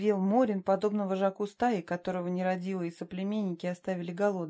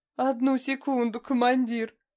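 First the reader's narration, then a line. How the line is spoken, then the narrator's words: Barely suppressed wild laughter. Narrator (Russian): Эрику в какой-то мере удалось совладать с пароксизмами дикого хохота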